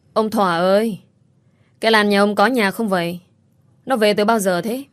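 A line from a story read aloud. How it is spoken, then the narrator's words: Loud yelling. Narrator (Vietnamese): họ hét toáng cả lên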